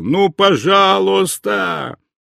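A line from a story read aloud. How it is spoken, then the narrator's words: Boy shouting. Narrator (Russian): мальчишка кричал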